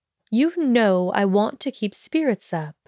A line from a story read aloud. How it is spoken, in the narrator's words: the headmistress said evenly